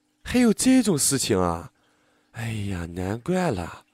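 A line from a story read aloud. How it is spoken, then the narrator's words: Astonished exclamation. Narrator (Chinese): 班主任连连惊叹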